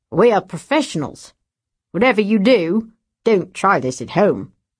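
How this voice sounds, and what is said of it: Put-on Australian accent. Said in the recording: “In the Australian accent”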